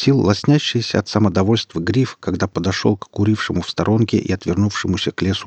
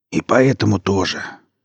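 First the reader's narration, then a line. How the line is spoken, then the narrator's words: Wheezing. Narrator (Russian): просипел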